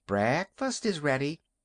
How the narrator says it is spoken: she called brightly

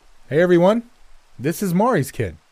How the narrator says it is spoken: The bearded man hollered

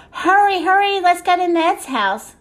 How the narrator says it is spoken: shouted Fred

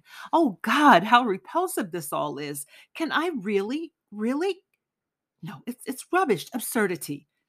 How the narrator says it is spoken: he exclaimed

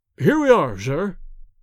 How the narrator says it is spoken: exclaimed Bates

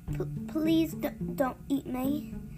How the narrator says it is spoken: Sophie stammered

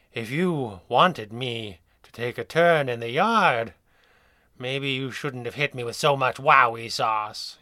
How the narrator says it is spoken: sighed

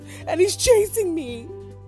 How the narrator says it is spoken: Barnaby sobbed

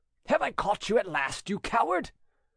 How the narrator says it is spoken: a threatening voice cried

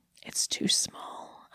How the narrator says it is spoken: I whispered

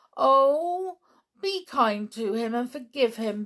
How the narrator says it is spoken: begged Anne

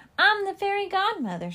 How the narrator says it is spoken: she yelled

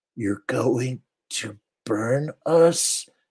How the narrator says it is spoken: Helen rasped

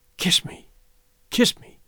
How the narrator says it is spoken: she whispered, her face lighting

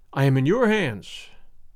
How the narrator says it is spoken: said the brigand with a sigh

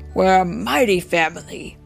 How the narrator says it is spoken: Daddy booms

